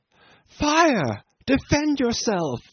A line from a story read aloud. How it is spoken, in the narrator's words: the girl outside cried in an agonizing voice